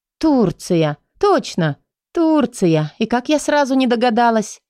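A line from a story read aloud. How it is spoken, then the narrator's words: Exclaimed. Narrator (Russian): воскликнула я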